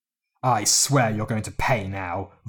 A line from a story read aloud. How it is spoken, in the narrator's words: Volf spat